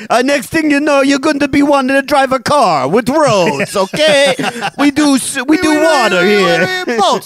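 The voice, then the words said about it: Put-on Italian accent. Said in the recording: “It's a dead-on Italian accent.”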